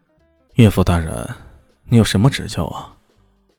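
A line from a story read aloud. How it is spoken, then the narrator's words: Smooth unhesitating. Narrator (Chinese): 说的异常的顺口，连半点滞色都没有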